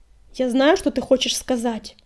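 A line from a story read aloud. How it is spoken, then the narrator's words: Angry hiss. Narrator (Russian): зло зашипел он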